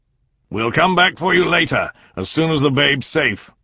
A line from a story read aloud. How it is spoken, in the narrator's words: Finn shouted over his shoulder to the woman